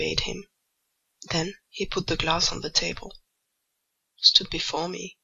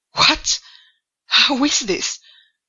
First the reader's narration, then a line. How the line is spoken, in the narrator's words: he exclaimed hastily